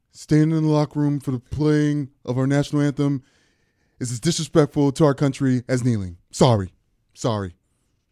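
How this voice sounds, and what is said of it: Imitates another person's voice. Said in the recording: “That was a Trump impression.”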